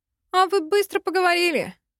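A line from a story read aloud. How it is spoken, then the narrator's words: Smirking grunt. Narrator (Russian): хмыкнул Ростин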